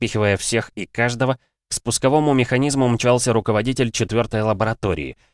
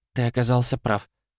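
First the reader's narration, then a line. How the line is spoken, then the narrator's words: Soft, quiet. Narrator (Russian): тихонько произнесла Лиза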